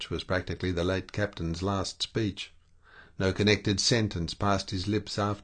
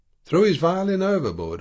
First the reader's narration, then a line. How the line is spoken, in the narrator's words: I exclaimed